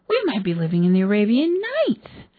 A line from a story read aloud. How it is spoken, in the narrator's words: said Miss Fritton excitedly